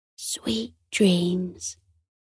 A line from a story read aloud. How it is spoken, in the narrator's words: Coco whispered